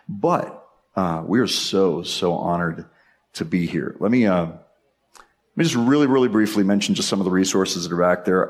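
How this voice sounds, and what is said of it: Hoarse, nearly lost voice. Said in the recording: “my voice is on the edge of gone”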